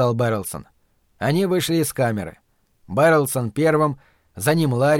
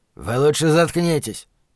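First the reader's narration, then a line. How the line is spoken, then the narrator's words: Guard growling. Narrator (Russian): прорычал кто-то из конвоиров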